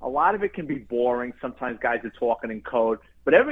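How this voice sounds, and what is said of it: Usual voice. Nothing is said of it.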